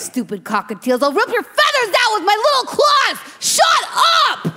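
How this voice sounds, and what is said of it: Yelling angrily. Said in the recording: “Why are you yelling”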